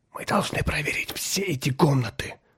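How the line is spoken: Whispered. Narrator (Russian): прошептал землянин

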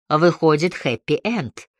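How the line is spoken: Wry snort. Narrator (Russian): хмыкнул Лёкин

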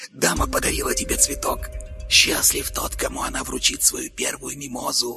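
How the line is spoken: Whispered. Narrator (Russian): прошептал Карл

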